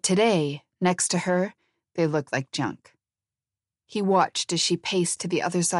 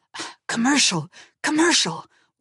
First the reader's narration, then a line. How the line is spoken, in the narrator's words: Walter hissed to the cameraman